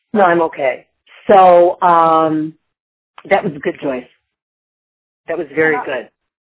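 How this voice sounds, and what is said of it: Deep voice, sounds like a cold. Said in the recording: “you have that deep voice ... I do that deep voice. I actually have a cold. I might have walking pneumonia”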